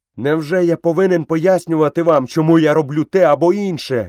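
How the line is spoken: Furious shout. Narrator (Ukrainian): люто закричав Мауглі

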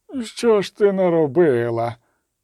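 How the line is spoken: Innkeeper groaning in silence. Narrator (Ukrainian): застогнав у тиші корчмар

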